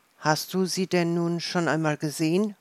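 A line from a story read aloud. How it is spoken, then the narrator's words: Plain. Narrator (German): fragte Mathis wieder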